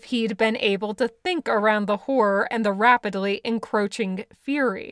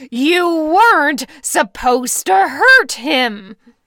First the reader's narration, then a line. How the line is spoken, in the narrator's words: Bill roared